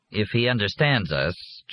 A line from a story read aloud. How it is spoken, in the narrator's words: Jack said dryly